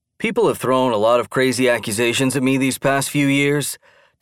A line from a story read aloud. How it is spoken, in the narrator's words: Dan sighed